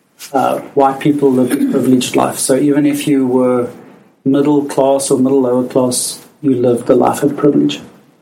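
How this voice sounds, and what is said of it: South African accent. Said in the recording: “as you can hear from my accent, I am South African”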